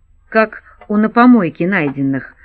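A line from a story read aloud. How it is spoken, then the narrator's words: Angry inner voice. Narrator (Russian): зло добавил про себя Борн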